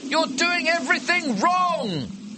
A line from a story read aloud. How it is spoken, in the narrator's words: you shout